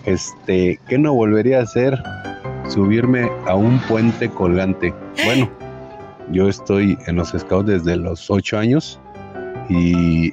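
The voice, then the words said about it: Deep radio announcer voice. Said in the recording (Spanish): “con esa voz de locutor.”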